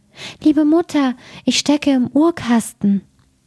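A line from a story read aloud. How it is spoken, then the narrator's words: Small voice calling. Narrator (German): rief eine feine Stimme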